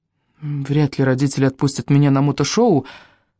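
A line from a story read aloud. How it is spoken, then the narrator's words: Embarrassed, forced out. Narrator (Russian): выдавил Райан густо краснее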